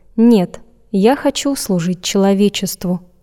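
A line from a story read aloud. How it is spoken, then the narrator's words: Quick reply. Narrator (Russian): Матео быстро ответил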